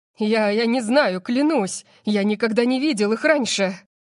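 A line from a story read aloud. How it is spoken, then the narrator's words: Breathless exhale. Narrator (Russian): Выдохнул он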